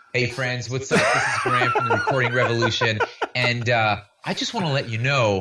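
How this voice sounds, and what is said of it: Imitates another person's voice. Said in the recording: “my best Graham Cochran impersonation.”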